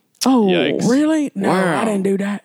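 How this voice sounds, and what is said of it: Imitates another person's voice. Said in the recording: “That's my impression.”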